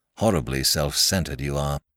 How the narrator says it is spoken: grumbled Mr

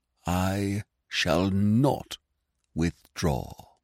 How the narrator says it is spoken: he said slowly, with a dull, dogged evenness of tone

